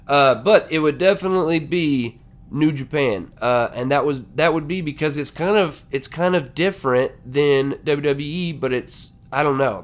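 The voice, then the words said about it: Hoarse, strained voice. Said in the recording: “I'm losing my voice here”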